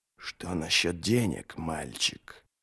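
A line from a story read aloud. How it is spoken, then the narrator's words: Hiss. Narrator (Russian): прошипел Тригг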